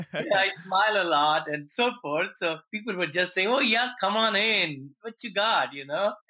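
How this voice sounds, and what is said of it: Foreign accent, hard to understand. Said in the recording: “Nobody could understand me. My accent, and still people can't understand me.”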